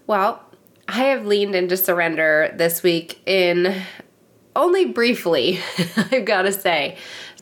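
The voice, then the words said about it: Congested head-cold voice. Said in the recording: “hear in my voice, I do have a head cold”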